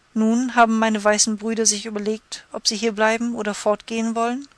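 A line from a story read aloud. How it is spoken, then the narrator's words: Plain. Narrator (German): fragte Intschu-Tschuna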